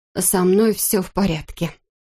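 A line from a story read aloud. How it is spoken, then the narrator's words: Muttered, then irritated repeat. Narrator (Russian): пробормотала она и раздраженно повторила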